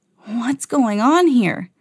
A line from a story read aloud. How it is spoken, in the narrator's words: McQueen gasped as he finally realized that he was trapped in the town's impound lot